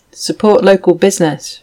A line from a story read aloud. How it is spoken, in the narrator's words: she said